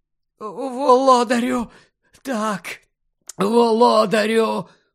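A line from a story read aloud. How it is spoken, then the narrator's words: Relieved hoarse rasp. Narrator (Ukrainian): полегшено захрипів Руквуд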